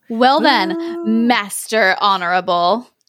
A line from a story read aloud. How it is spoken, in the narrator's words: chuckled the wizard